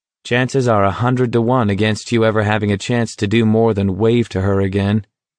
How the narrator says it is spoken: McVries said flatly

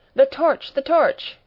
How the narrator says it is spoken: cried the professor

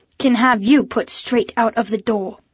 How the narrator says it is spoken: snapped Mademoiselle Octopus

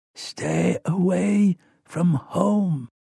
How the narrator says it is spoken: Rowan whispers

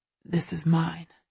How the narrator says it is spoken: he murmurs in my ear

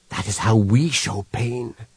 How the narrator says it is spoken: whispered Human

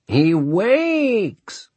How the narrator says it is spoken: one of them cried in a gruesomely coquettish voice

